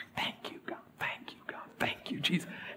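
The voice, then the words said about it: Whispered prayer. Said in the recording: “whispering, I don't want to wake anybody up because my two brothers are sleeping ... so I'm just whispering,”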